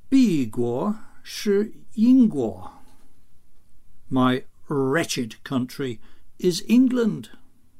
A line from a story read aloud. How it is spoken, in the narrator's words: reply through clenched teeth